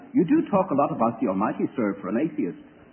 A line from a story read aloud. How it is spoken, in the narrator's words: An Englishman said rather dryly